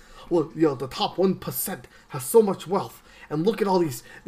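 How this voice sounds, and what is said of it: Imitates another person's voice. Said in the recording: “my Bernie Sanders impersonation. I gotta make up voices as I go.”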